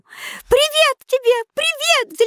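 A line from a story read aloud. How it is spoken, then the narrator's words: Babbling. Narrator (Russian): залепетала она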